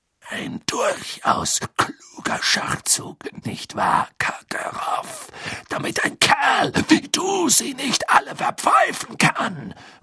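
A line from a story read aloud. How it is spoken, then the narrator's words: Murmured. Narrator (German): murmelte Moody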